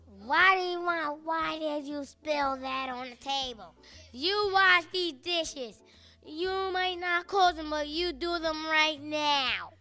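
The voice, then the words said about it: Imitates a grandmother's scolding voice. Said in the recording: “Can you guys do impressions of your grandparents? ... My grandma.”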